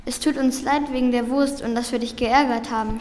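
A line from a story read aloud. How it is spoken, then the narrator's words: Stammered. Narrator (German): stammelte Niklas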